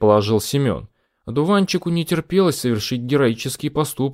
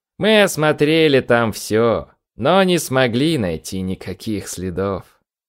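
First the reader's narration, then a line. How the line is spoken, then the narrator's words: Sighing. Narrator (Russian): вздохнул отец одуванчика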